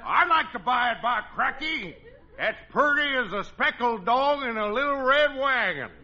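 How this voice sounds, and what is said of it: Put-on folksy rural dialect. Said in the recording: “It's a lousy dialect, but that's the way I like to hear you talk”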